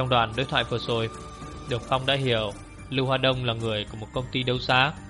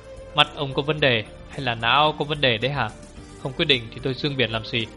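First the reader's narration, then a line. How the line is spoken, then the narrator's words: Harsh angry cursing. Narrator (Vietnamese): Lưu Hoa Đông bị phải đòn, gằn giọng chửi sủa một câu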